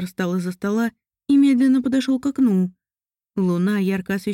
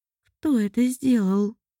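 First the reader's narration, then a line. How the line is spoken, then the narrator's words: Quiet, wary question. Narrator (Russian): Мариэль спросила тихо, словно опасаясь реакции мужчины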